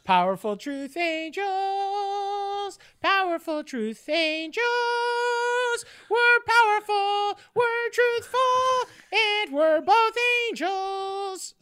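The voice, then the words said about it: High falsetto sung jingle. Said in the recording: “I'm trying to do a jingle ... I'm amazed at your octaves, how high your voice goes ... falsetto”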